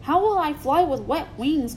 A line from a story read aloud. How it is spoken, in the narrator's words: grumbled Rainbow Dash